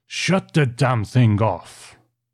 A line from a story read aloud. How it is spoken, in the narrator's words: roared Mr